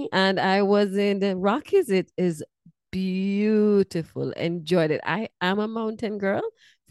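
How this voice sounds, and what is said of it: Jamaican accent. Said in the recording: “I'm from Jamaica. That's where my accent is from.”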